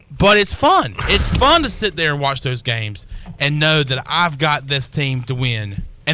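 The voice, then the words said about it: Country accent. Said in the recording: “I just have a country accent”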